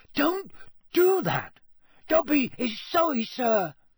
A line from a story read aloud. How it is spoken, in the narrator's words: squeaked Dobby anxiously